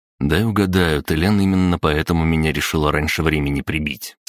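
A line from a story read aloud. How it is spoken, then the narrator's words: Plain question. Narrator (Russian): спросил я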